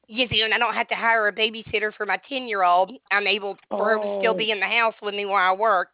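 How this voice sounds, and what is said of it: Speaks with a regional accent. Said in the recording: “I love your accent”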